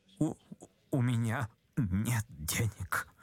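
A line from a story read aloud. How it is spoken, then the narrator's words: Mumbling. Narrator (Russian): пробормотал, наконец, Ипполит Матвеевич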